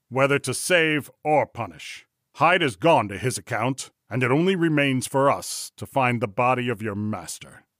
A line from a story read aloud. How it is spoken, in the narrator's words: he said sternly